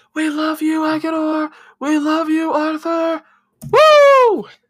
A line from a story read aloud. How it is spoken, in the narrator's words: whooping and hollering like they're super excited to be here